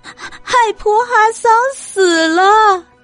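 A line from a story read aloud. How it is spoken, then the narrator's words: Crying out. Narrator (Chinese): 他哭喊着说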